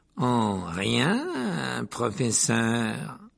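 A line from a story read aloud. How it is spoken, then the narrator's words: Slightly sarcastic reply. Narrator (French): répondit-il d'un ton légèrement sarcastique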